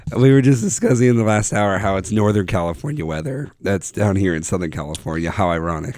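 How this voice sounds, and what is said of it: Hoarse, lost voice. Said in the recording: “lost my voice, as you can tell ... I sound awful.”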